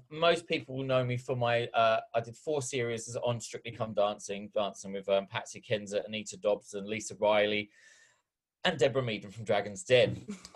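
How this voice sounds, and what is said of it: English accent with Australian twang. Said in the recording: “this Australian twang that I've got to my accent”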